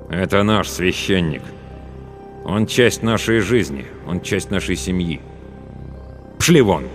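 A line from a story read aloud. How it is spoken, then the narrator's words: Cold declaration. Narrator (Russian): Главный ликвидатор холодно заявил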